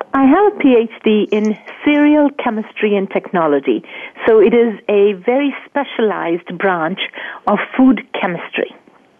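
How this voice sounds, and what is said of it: Mixed Indian-Australian-English-Midwestern accent. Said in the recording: “the accent that you're hearing is part India, part Australia, part England, and definitely North Dakota ... we definitely hear the North Dakota part of it, for sure. That comes out clearly ... your accent to our ears is simply marvelous. It's soothing to the ear.”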